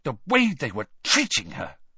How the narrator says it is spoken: said Hermione furiously

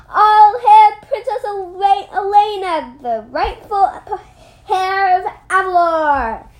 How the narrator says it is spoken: shouts

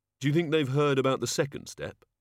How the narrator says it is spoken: Susan sighed

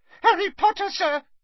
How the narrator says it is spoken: squeaked Dobby

